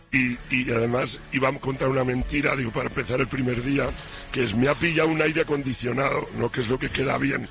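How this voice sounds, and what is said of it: Hoarse, strained voice. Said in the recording (Spanish): “esa voz ... Mira cómo estoy ... que estoy afónico ... estuve cantando como un perro”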